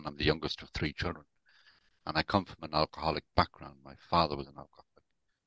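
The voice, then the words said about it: Irish Dublin accent. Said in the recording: “as you can probably tell from my accent, I'm not actually from the UK. I was born and brought up in Dublin.”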